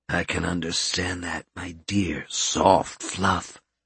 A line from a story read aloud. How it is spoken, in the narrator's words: Albert said softly